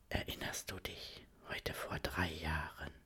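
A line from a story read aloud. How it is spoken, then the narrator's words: Whisper. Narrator (German): flüstert sie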